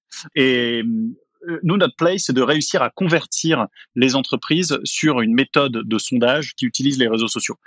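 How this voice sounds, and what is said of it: French accent. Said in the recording (French): “Je suis québécois de cœur, mais d'accent, je suis français.”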